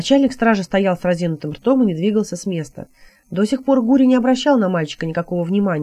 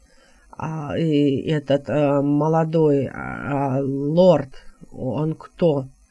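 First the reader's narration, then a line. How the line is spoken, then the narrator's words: Mumbling guard captain. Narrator (Russian): промямлил начальник стражи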